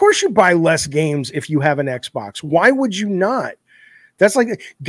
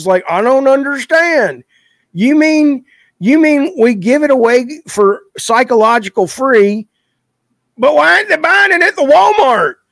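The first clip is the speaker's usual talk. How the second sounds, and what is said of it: Put-on Southern Texas accent. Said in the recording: “the Southern Texas, you know, accent ... I'm from Alabama, so I can do that”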